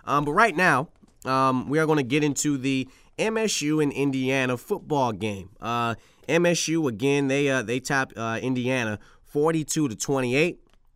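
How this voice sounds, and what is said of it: Raspy, slightly sick voice. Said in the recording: “a little sick, a little raspy, as you can hear it in my voice,”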